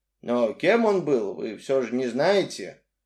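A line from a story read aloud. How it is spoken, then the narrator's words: Woman sighing. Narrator (Russian): Женщина вздохнула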